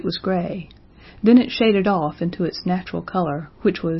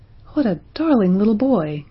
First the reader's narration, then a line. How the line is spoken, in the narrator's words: exclaimed Roxanne, smiling radiantly